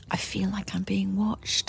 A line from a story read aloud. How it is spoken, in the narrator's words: I said quietly